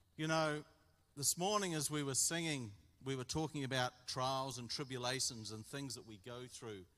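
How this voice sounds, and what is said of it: Australian accent. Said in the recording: “they seem to turn on the Australian accent”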